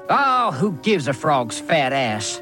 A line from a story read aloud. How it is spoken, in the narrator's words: He snarled at his own brother